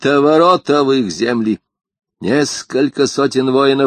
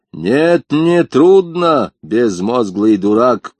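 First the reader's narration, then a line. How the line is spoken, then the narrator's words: Thundering. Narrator (Russian): прогремел Темучин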